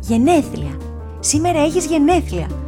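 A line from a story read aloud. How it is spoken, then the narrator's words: Happy girl's shout. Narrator (Greek): φώναξε χαρούμενο το κορίτσι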